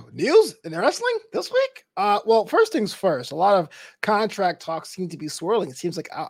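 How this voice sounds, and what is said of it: Usual voice. Nothing is said of it.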